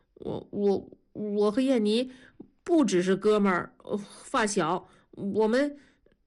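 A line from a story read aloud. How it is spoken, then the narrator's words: Stammering. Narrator (Chinese): 刘强结结巴巴地说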